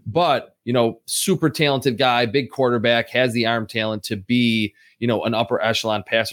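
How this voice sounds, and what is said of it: Western New York Buffalo accent. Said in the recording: “This is such a unique accent ... It's Western New York, right? Buffalo area.”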